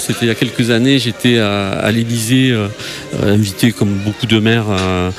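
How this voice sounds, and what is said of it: Southwestern French accent. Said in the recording (French): “mon accent du sud-ouest”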